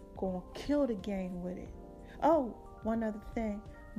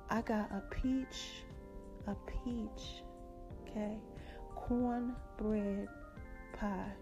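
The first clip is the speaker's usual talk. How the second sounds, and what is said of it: Sultry, seductive voice. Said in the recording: “I'm going to put my sexy voice on.”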